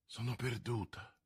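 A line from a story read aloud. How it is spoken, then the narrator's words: Murmuring queen. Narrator (Italian): mormorò la regina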